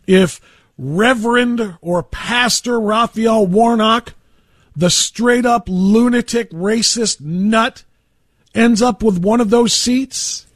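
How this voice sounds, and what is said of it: Shouting, raised radio voice. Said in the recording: “I don't normally shout my radio show. I like to talk to you, but I'm shouting a little bit right now”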